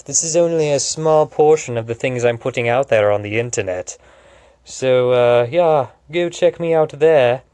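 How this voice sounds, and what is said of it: Speaks in a put-on accent. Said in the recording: “I don't know why I'm talking in an accent.”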